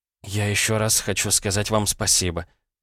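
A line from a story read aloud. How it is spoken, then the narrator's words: Muttered. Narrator (Russian): пробормотала Ирина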